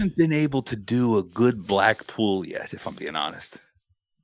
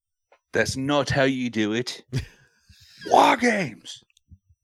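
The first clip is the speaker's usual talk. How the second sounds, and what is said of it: Put-on Cockney accent. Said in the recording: “A little Cockney accent there.”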